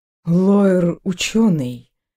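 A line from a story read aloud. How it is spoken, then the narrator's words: Uncertain. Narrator (Russian): неуверенно произнесла Фелис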